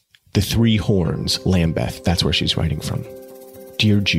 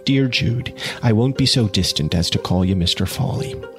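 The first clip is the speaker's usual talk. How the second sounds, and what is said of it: Reader voicing a female character. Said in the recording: “I'll do her voice a little bit.”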